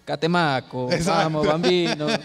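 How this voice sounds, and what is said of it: Put-on Italian accent. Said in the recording (Spanish): “¿Cómo se dice Catemaco en italiano? ... Pero con acento.”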